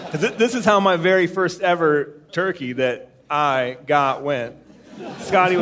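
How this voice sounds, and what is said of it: Usual voice. Nothing is said of it.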